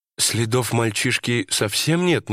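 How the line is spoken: Wife's uncertain question. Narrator (Russian): неуверенно спросила жена

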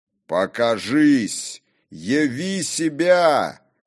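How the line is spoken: Shouting. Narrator (Russian): крикнул он

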